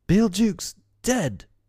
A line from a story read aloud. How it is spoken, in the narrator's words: cried the pirates